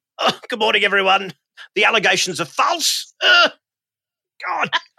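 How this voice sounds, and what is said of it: Imitates another person's voice. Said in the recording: “good Alan Jones impersonation ... I think yours might be award-winning”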